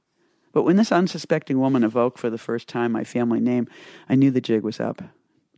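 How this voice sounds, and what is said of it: Boston accent. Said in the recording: “Speaking of Boston accent, here's another one ... my Boston accent, confusing lodge for lodge, party for party”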